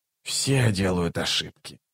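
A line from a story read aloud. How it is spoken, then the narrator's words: Mutter. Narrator (Russian): пробормотал Раллик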